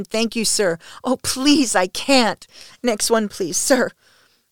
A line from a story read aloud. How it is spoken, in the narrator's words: wail